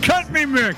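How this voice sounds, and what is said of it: Imitates another person's voice, poorly. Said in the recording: “Horrible impersonation.”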